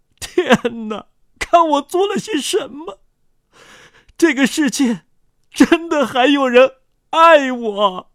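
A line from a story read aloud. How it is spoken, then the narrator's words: Sobbing uncontrollably. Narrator (Chinese): 那罪犯失声痛哭，说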